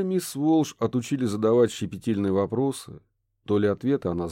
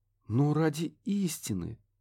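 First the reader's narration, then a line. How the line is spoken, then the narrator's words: Gentle coaxing. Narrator (Russian): мягко подтолкнула она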